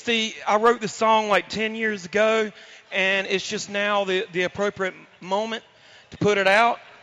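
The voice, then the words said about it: Hoarse, strained voice. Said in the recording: “I've lost my voice, in case y'all can't notice ... I've lost my voice doing the Panther growl like 24 times over the last week”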